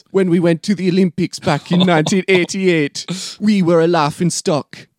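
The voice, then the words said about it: Dodgy put-on Jamaican accent. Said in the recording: “you're going to have to forgive all my dodgy Jamaican accents throughout this plot ... this is a little bit Haitian”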